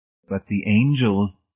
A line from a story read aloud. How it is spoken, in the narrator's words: Miss Rice said